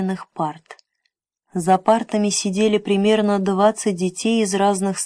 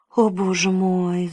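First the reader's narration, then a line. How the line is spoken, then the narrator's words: Sigh. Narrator (Russian): вздохнул Джим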